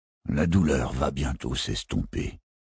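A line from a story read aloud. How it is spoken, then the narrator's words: Murmured. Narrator (French): murmura Barofil le 24e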